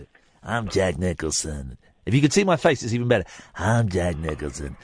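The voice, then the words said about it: Imitates another person's voice. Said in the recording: “Jack Nicholson. That's not a bad impression, actually, was it?”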